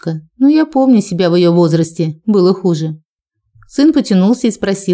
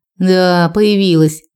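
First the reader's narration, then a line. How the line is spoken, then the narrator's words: Grumbled. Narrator (Russian): проворчала старшая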